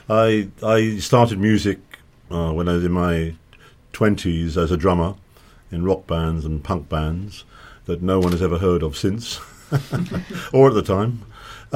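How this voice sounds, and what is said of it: London-sounding English accent. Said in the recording (French): “I'm living in London by way of Australia, where I was born. But my accent is very Londonish right now.”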